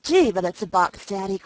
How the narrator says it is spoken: cried the laughing girl

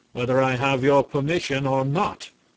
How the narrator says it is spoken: returned the prince sternly

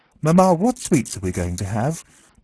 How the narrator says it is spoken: Natasha again cried boldly with saucy gaiety, confident that her prank would be taken in good part

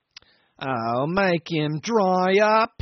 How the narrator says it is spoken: whined the accident case irritably

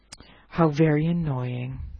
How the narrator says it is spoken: sighed the eagle, thinking regretfully

